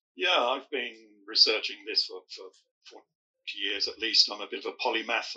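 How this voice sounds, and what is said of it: British accent. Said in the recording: “coming to us from the UK. You can probably hear the accent.”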